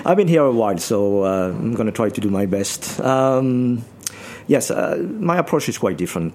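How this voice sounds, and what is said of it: French accent. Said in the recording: “You are French... I can tell that... tell that through the accent”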